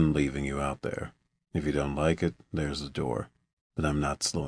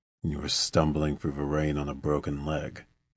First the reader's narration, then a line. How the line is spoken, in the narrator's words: the man replied in that deep voice